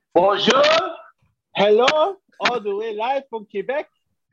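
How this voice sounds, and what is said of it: Put-on French-sounding accent. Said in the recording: “Why you sound like Jean-Claude Van Damme, bro? ... This guy turned African. ... is that a French accent? ... I think it was African. That's African. ... That was all the accents.”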